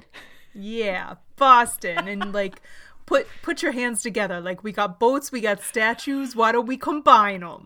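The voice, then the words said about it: Put-on Boston accent, newsie-like. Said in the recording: “Is that your Boston accent? ... That's my like non-Ohio accent. ... You sounded a little bit like a newsie.”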